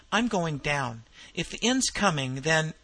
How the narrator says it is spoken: he exclaimed

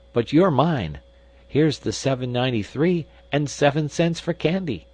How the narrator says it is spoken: he exclaimed

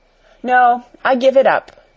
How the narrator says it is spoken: Alice replied

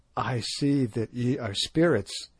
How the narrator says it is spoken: he said falteringly

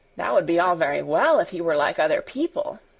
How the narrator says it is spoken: asserted stout Barbel warmly

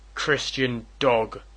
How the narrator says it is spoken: roared Mordecai the Jew

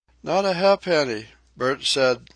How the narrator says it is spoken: she faltered

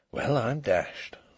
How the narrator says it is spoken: He could only keep repeating very softly to himself

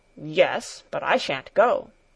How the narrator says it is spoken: Peter growled

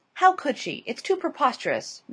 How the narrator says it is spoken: Miss Glyde exclaimed

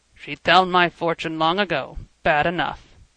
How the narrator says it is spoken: Frank grunted

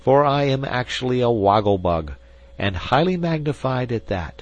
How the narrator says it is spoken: exclaimed, rather peevishly

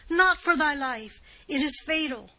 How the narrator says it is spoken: exclaimed she, in a voice of agony

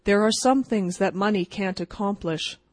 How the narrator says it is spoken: remarked young Rockwall rather gloomily

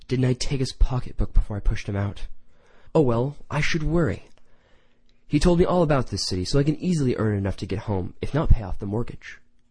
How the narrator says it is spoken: she sighed in innocent regret

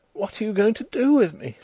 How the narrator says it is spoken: whimpered

